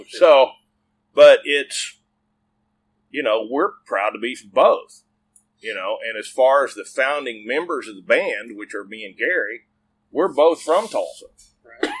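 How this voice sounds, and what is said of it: Mixed Oklahoma and Texas accent. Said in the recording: “my cross Okie Texan accent, which makes my voice text, it hates me”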